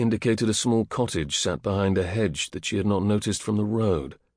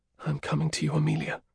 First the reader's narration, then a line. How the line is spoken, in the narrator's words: whispered